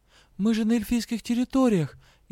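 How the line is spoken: Frightened whisper. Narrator (Russian): испуганно прошептала ему

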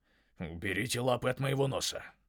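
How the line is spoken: Hiss. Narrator (Russian): прошипел он

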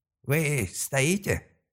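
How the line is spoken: Irritated creak from behind. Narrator (Russian): раздраженно проскрипели за спиной

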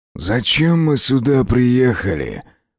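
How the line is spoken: Growl. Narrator (Russian): прорычал Аскольд

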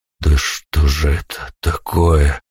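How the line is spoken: Strained exhale. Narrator (Russian): выдохнул, напрягаясь еще раз

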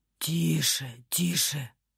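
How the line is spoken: Hot whisper into neck. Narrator (Russian): шептали ей в шею жаркие губы

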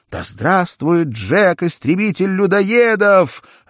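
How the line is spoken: Joyful crowd shouting. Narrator (Russian): радостно кричали они

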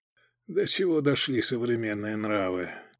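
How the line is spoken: Barely audible mutter. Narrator (Russian): Едва слышно, себе под нос пробормотал он

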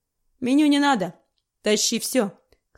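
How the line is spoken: Snorting. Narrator (Russian): хмыкнул грустноглазый

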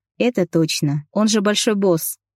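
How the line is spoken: Laughing reply. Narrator (Russian): рассмеялся в ответ я

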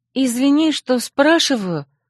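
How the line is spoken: Timid speech. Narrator (Russian): робко проговорила она

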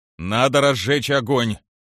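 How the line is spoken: Loud self-steadying remark. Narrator (Russian): Громко, чтобы взять себя в руки, заметил Олег

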